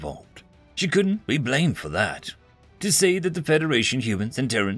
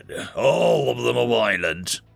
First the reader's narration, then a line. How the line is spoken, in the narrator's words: he growled